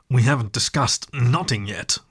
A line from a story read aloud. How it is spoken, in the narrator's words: said between muffled grunts